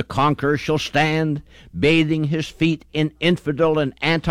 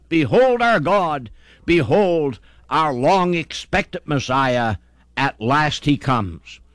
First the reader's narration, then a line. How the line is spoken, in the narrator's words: exclaim with a mighty shout